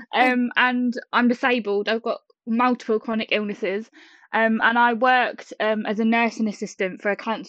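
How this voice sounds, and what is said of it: British accent. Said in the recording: “I love ... accent ... really cool accents ... I live in the UK, as you said about my accent”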